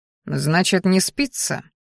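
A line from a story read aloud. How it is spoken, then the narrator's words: Amused snort. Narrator (Russian): хмыкнул он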